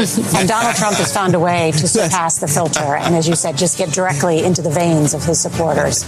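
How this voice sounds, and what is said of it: Usual voice. Nothing is said of it.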